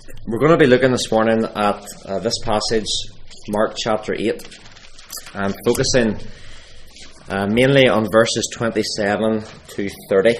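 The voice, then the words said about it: Hoarse, strained voice. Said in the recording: “You have to excuse my voice. I must be shouting too much in my classroom.”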